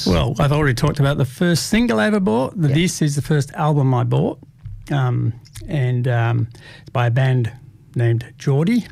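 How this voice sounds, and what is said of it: Irish accent. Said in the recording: “hard to understand, a bit like myself. With the Irish accent.”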